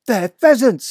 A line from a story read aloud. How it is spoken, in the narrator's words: cried